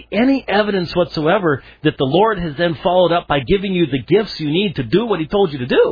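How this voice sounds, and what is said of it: Usual voice. Nothing is said of it.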